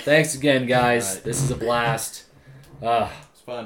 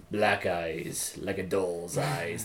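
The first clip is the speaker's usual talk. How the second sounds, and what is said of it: Imitates a film character's voice. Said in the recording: “my impression of him”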